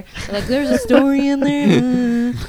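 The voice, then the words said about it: Imitates another person's voice. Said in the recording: “That sounded just like him. ... That's a great Josh impression. ... Spot on Josh. ... That's what you sound like.”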